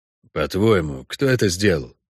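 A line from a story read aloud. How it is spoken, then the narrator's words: Quiet question. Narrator (Russian): тихо спросил Хорн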